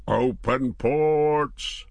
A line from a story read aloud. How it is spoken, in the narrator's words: the master's roar was